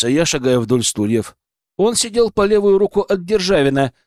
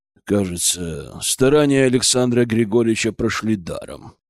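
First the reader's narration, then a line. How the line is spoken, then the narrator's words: Grumbling. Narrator (Russian): проворчал маршал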